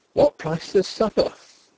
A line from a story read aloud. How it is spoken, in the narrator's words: Denry exclaimed